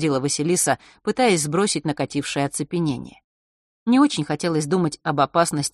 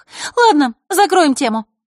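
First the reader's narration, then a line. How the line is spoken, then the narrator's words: Sharp, abrupt cut-off. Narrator (Russian): резко оборвала Захарра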